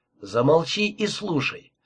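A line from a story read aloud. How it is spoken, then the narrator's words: Calm continuation. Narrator (Russian): спокойно продолжал я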